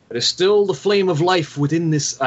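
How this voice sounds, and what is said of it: Put-on Scottish accent. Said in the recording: “Why am I becoming Sean Connery? Wrong Scottish accent.”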